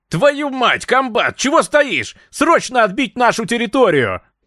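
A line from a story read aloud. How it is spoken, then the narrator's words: Shouting official. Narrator (Russian): Заорал руководитель дальневосточного НКВД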